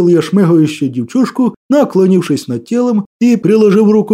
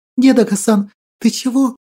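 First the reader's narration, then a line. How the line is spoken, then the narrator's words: Tearful whisper. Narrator (Russian): прошептала Василинка ... красными от слез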